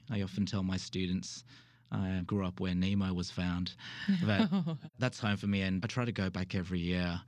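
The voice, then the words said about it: Australian accent. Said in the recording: “As you can tell from the accent. I actually hail from the true south, which is Australia”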